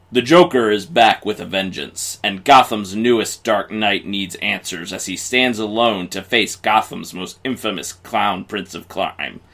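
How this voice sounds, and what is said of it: Dramatic announcer voice. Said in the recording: “In your best announcer voice, please.”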